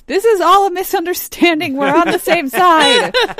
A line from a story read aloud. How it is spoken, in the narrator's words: And I yell